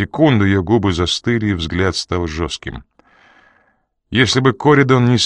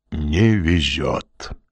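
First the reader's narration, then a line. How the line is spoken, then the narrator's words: Gloomy complaint. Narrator (Russian): мрачно посетовал Коридон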